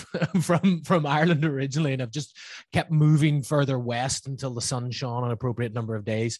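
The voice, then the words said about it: Northern Irish accent. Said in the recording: “my somewhat still there Northern Irish accent”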